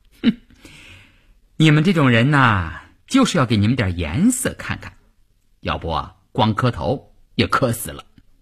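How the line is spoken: Laughing. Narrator (Chinese): 吴云听了这话笑了

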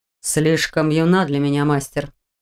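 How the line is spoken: Calm reply. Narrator (Russian): спокойно отозвался он

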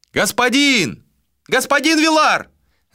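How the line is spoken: Shouting from above. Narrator (Russian): закричали откуда-то сверху

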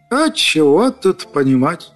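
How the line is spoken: Sad raven speaking. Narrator (Russian): печально сказал ворон

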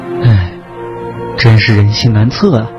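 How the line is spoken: Sighing. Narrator (Chinese): 秦科也摇头一叹说

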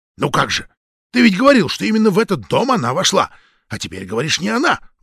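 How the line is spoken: Indignant hiss. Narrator (Russian): возмущенно прошипел Кочкин

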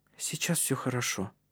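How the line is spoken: Whispered into hair. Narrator (Russian): прошептала она в его волосы

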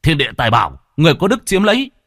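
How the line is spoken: Shout. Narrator (Vietnamese): Lâm Phong chỉ hét lên một tiếng

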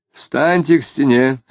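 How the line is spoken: Too-loud command. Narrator (Russian): слишком громко приказал Тагильский

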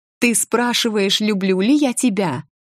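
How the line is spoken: Shouting. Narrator (Russian): закричала я

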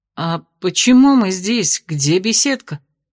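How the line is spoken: Groaning through clenched teeth. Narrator (Russian): застонала сквозь стиснутые зубы

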